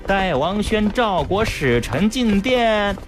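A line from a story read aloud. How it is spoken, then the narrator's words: Sarcastic servant's call. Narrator (Chinese): 内侍 阴阳怪气地叫道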